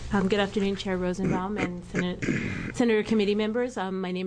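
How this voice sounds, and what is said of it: Usual voice. Nothing is said of it.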